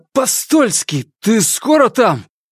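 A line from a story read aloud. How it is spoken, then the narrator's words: Grumpy shout, chattering teeth. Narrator (Russian): Сварливо прокричал Корсаков, стуча зубами по чище испанских кастаньет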